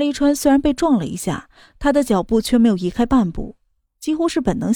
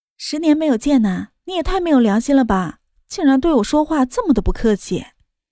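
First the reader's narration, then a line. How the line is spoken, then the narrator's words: Laughing. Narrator (Chinese): 江万竹笑着道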